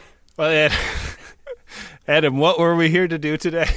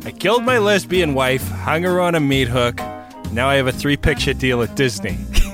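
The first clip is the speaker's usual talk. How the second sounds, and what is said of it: Put-on Boston accent. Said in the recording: “in the Boston accent? ... Perfect. Perfect.”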